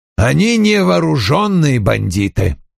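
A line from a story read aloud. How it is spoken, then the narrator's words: Snapping retort. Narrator (Russian): огрызнулся Вульф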